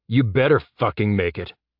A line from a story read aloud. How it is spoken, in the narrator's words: Jeb growled